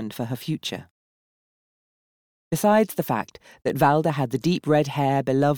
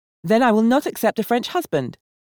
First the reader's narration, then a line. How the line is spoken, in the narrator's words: Valda asserted sharply